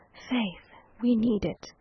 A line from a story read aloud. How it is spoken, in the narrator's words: Fouquet heard that the decree was on its way, he said with a sigh of relief